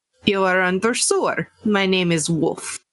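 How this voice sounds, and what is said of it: Put-on foreign accent. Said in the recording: “You're one of them commies. I can tell by your accent.”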